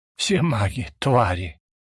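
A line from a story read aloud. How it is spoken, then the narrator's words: Exhaled. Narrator (Russian): выдохнул он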